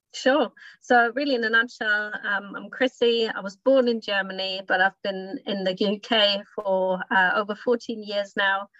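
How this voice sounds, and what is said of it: Slight foreign accent. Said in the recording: “there's a slight accent I'm hearing there”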